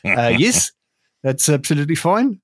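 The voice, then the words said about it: Failed New Zealand accent, sounds South African. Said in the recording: “New Zealand accent ... you know that I struggle with a New Zealand accent ... it's gone South African so quickly ... That went South African on the first noise.”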